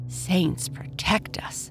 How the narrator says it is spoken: she muttered

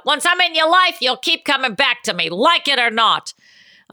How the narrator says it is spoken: this little baby comes with a bite and shouts out

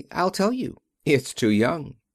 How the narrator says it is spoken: she answered cheerfully

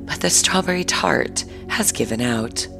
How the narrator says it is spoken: she said in her sweetest voice

